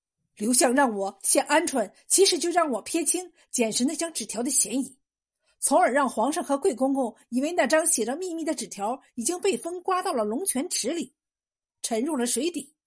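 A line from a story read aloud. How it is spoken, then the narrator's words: Shouting. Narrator (Chinese): 冯文灿听后叫道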